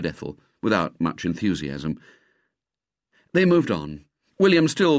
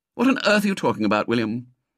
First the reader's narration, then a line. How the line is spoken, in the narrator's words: said Ethel impatiently